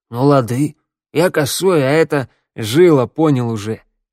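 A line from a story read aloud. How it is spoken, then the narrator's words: Rough bark. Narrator (Russian): рявкнул Теодор, и еще никогда его голос не звучал так грубо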